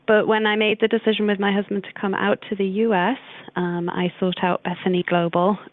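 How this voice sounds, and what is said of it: British accent. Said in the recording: “my accent has come out straight away in the conversation. So I'm British”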